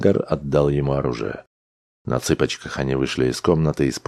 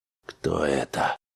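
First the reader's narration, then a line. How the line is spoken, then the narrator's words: Whispered. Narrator (Russian): прошептал Грегор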